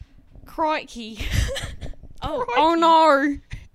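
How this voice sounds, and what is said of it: Put-on Australian accent. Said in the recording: “can you do an Australian accent?”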